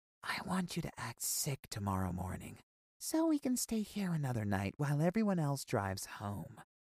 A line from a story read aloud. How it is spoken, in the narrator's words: Miss Lopez came to my bed and whispered